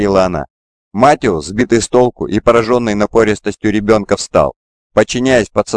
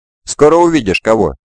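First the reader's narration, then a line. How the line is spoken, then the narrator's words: Cheerful. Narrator (Russian): весело сказала она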